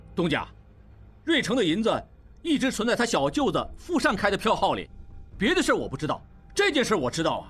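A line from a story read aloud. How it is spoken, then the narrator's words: Suddenly louder. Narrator (Chinese): 王宗宇忽然声音也大起来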